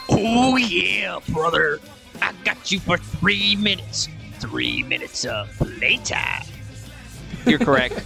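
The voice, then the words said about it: Imitates a wrestler's gravelly voice. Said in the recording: “my Macho Man impression”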